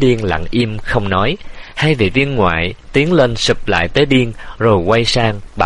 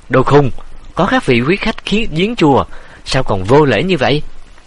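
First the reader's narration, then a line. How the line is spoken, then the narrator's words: Furious shout. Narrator (Vietnamese): Quản Lượng phừng phừng nổi giận, quát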